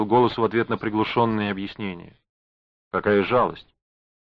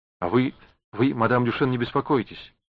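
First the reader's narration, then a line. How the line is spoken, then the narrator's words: Hurried, forced smile. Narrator (Russian): торопливо сказала она, изображая улыбку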